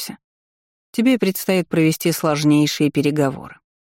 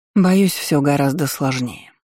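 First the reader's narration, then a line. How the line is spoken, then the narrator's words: Sighed. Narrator (Russian): вздохнула Иоланта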